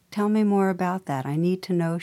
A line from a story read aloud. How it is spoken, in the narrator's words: she said